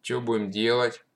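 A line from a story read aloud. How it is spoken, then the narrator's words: Gloomy question. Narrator (Russian): мрачно спросил Панков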